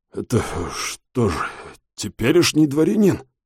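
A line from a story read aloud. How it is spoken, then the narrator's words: Forced out, helpless. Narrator (Russian): Бессильно уронив руки, выдавил генерал Соколовский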